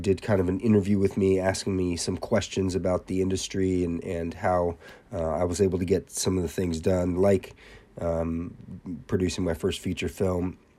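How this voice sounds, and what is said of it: Voice sounds sick, under the weather. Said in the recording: “I'm a little under the weather, but I think my voice sounds super sexy”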